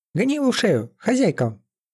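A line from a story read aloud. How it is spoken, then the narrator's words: Squeaky devil voice. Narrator (Russian): пропищал черт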